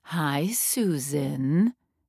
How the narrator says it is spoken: Agnes purred

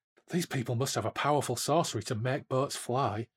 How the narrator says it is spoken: Relina whispered to Corum

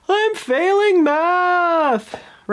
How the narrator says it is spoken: wails

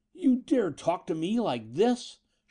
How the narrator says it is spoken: Shelton roared

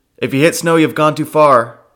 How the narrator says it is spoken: Drexa shout

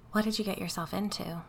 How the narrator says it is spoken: I asked quietly

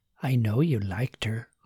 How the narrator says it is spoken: Margaret whispered

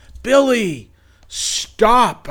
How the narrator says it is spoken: I yelled back

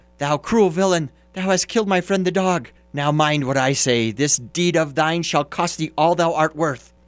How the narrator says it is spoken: cried the sparrow

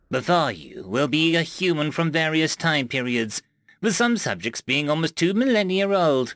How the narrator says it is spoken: he chuckled to himself

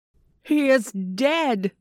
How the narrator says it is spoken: several voices cried

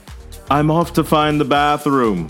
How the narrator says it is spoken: she shouted

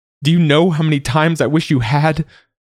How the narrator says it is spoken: she cries, her voice full of panic and fear

